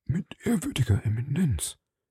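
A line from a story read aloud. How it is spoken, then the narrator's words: Murmuring. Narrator (German): murmelte Bonacieux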